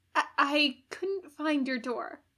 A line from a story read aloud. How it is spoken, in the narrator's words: he stammered, possibly from the night air, but probably from his emotional state